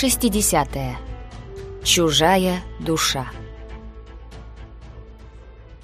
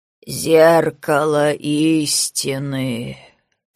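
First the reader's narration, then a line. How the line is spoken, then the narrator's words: Creaky old man's voice. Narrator (Russian): проскрипел старик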